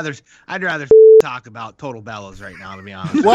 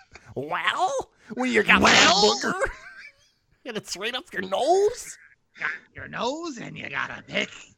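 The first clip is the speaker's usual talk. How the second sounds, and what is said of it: Imitates another person's voice. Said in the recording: “your Hawk impression”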